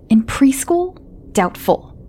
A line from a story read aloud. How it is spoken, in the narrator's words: Tom snapped